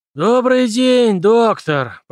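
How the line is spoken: Hoarse rasp. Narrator (Russian): прохрипел Дональд Пембертон

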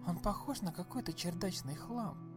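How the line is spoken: Secretive whisper. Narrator (Russian): проговорила Марго шепотом, чтобы Калеб не услышал

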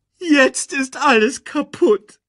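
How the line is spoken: Whining lament. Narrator (German): jammerte Timon

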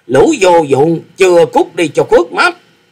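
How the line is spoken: Old man roaring. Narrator (Vietnamese): Lão già áo xanh chính là Tử Vong cốc chủ Phạm Long, quát lớn nói

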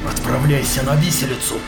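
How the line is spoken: Growled. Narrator (Russian): прорычал капитан

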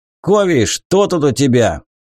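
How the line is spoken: Burly man barking. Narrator (Russian): рявкнул грузный широкоплечий хант

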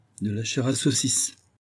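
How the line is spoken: Plain. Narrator (French): dit-elle

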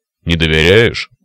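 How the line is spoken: Cyclops's snort. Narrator (Russian): хмыкнул циклоп

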